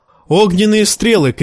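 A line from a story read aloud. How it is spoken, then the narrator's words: Shout. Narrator (Russian): крикнул Джон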